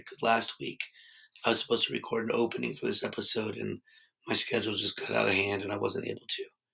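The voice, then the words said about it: Hoarse, strained laryngitis voice. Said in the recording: “my voice is shot ... Just over here with laryngitis, I guess ... recording this opening with laryngitis ... you hear my voice normal, and I think it sounds better than what you're listening to now”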